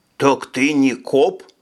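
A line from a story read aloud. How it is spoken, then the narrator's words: Plain. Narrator (Russian): спросил он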